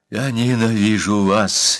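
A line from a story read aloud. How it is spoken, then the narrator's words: Sudden muffled hiss. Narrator (Russian): неожиданно прошипел он из-под шубы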